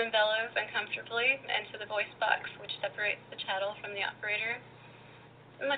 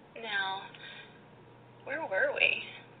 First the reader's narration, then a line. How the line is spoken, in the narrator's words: Petra purrs distractedly